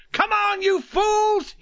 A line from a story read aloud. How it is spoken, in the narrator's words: he screamed